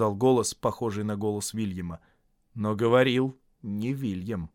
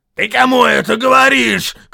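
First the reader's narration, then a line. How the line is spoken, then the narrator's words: Shouted. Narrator (Russian): крикнул Вильям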